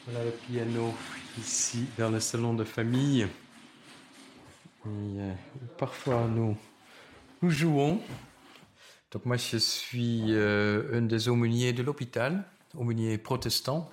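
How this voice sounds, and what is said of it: Slight Dutch accent in French. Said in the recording (French): “J'ai un petit accent d'origine néerlandaise.”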